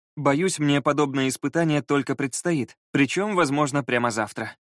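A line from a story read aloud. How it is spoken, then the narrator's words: Sighing. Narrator (Russian): вздохнул Скай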